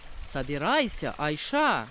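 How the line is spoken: Displeased commanding tone. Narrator (Russian): Повелела она недовольным тоном

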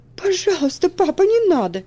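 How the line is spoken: Frightened cry. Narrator (Russian): испуганно вскликнула Элси

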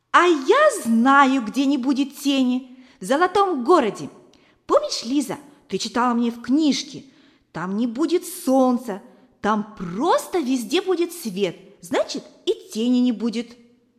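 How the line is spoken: Joyful exclamation. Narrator (Russian): Валерка радостно воскликнул

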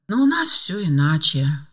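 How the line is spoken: Sigh. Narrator (Russian): вздохнула Евдокия Ивановна

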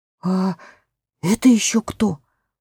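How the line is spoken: Whisper. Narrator (Russian): прошептала Сьюзен

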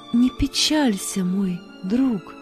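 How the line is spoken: Tender. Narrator (Russian): кто-то так нежно сказал

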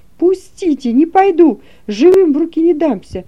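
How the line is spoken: Shouting. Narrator (Russian): я закричал

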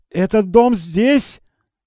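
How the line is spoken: Exclaiming. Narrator (Russian): воскликнул Скрудж

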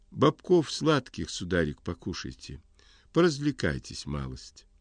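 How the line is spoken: Gentle sing-song. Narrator (Russian): Сказала ласково, пропела словно

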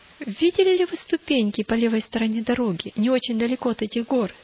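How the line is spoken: Plain question. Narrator (Russian): спросил бдительность

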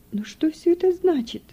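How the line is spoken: Through tears. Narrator (Russian): говорила она сквозь слезы

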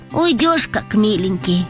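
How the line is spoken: Sighing. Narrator (Russian): вздохнул Антон

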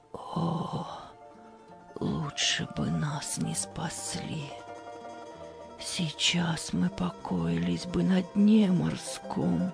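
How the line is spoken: Despairing whisper. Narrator (Russian): на Марию снова нахлынуло уныние, и она в отчаянии прошептала

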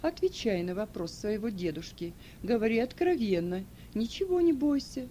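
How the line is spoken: Gentle. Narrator (Russian): ласково сказал

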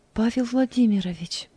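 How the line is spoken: Quiet. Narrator (Russian): тихо сказала Анита

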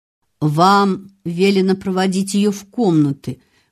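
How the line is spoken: Hollow, muffled voice. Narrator (Russian): глухо проговорил

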